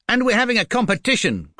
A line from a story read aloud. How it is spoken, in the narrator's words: cried Jonathan